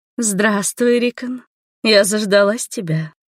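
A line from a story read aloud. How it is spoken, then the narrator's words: Languid seductive coo. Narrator (Russian): проворковала томным голосом обнаженная леди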